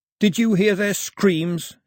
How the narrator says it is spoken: yelled to the empty sky

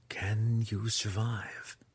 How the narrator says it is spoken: Zack whispered

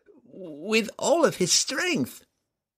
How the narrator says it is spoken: Telshaz cried

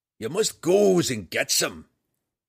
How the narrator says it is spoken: Roddy cried

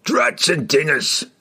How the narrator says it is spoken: grumbled one of the giants

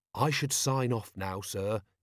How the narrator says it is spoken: he said gently

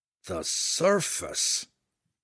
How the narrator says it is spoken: Belwar muttered, his head lowered and his voice almost a groan

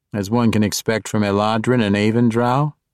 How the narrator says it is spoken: Jarlaxle slyly asked

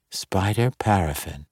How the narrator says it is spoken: Dahlia muttered

